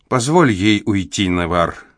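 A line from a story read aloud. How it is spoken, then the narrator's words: Gentle motherly advice. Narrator (Russian): мягко посоветовала мать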